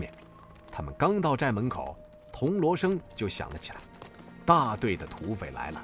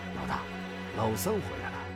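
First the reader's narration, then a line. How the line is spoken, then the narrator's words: Low voice. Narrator (Chinese): 黑虎低声道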